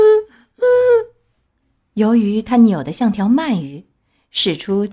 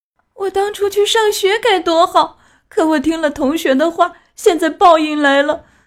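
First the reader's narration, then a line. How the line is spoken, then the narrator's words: Loud wailing lament. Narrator (Chinese): 不幸的皮诺乔开始哇哇大哭，怨天怨地地说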